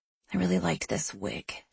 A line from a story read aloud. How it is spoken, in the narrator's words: she mutters